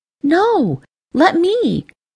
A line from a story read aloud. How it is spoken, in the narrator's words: Ember exclaimed